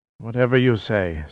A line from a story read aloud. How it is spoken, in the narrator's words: said Salazar, panting